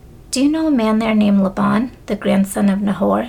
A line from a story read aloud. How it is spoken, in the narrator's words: he asked